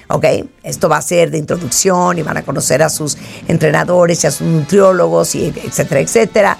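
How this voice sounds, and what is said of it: Hoarse, old-sounding voice. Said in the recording (Spanish): “es horrible estar oyendo a alguien así ... ¿quién es esa viejita ... estoy ronca ... está bien ronca”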